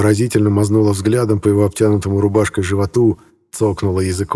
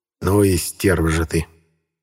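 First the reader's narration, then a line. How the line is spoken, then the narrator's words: Muttering. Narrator (Russian): пробормотал Хромов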